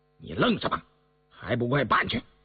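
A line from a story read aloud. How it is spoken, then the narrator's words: Stern harsh voice. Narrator (Chinese): 雍正厉声说道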